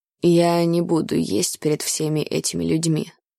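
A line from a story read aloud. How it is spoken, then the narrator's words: Gloomy reply. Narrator (Russian): мрачно отозвался Ной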